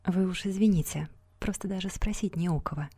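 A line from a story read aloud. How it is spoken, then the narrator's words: Sad. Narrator (Russian): печально сказала она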